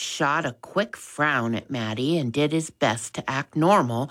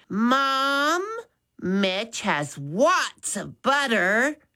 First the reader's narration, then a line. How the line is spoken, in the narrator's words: Maddie said loudly